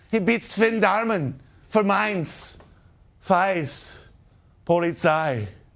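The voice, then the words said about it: Put-on German-Scottish-sounding accent. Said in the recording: “sounds more like a German-Scottish accent”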